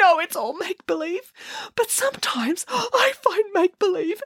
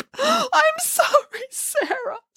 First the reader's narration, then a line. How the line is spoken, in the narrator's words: sobbed Boris